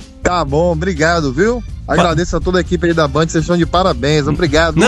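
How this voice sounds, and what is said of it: Usual voice. Nothing is said of it.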